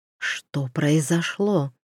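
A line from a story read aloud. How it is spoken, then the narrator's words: Whispered question. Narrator (Russian): шепотом спросил Туман у графини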